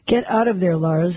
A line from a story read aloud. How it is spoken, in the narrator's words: Helen said